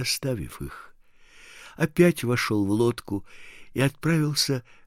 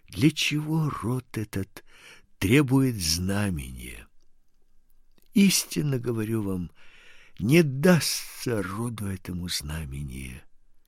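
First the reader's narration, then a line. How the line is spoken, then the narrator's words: Said with deep sigh. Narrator (Russian): глубоко вздохнув, сказал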